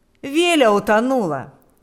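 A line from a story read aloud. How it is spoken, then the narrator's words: Exclaiming. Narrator (Russian): воскликнул он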